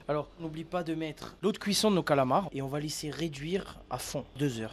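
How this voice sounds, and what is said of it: Corsican French accent. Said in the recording (French): “avec ce bel accent corse”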